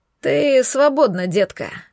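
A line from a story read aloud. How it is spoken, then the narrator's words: Grumbled. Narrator (Russian): проворчал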